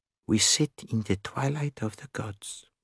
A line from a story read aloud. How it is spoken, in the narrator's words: Hercule Poirot murmured